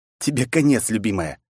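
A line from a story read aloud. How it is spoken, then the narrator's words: Vicious growl. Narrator (Russian): злобно прорычал я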